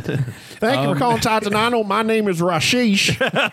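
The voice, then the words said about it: Put-on accent, hard to understand. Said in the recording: “I couldn't understand your accent.”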